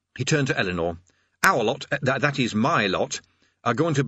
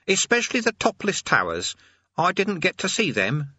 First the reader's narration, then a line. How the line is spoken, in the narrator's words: he added sulkily